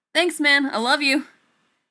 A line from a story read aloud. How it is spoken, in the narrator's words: Johnny's shout of